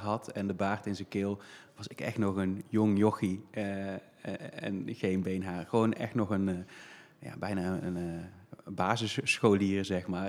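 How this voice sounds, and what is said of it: Brabant Dutch regional accent. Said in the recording (Dutch): “luisteraars horen gelijk al dat je, in een, Bra dat je een Brabants accent hebt”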